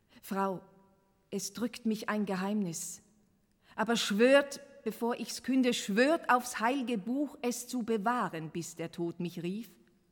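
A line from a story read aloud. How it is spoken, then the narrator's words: Loud call. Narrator (German): Laut rief er Miriam Lane und sagte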